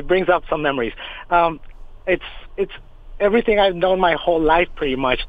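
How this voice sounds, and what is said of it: Choked-up, emotional voice. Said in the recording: “I'm sorry if I get choked up.”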